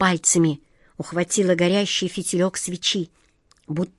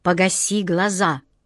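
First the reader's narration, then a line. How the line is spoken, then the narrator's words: Sharp shout. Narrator (Russian): прикрикнула на нее Джина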